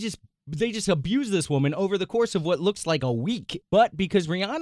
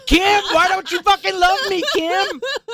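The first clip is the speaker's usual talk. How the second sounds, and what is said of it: Screamed impression of another person's voice. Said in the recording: “That's a really good Eminem impression ... All you have to do is be white and scream”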